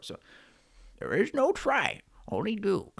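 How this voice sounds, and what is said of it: Poor Yoda character voice. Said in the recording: “that was a terrible Yoda impression.”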